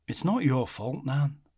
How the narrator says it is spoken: he said calmly

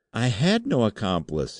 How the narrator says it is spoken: he cried

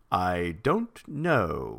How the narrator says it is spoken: Thrawn said slowly

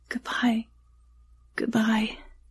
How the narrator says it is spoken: he whispered, as his heart finally broke

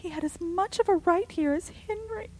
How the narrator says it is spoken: sobbed Rebecca

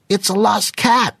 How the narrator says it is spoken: a piercing voice called out

